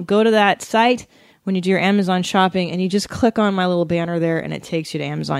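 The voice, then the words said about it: Winded, out of breath. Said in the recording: “How am I winded from doing that? Why am I out of breath?”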